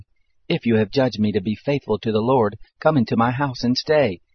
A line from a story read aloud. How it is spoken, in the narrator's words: she begged us, saying